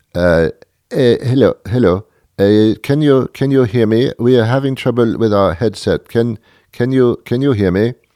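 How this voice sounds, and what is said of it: Thick Indian accent imitation. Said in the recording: “in a very thick Indian accent, not Indian American, Indian the other one”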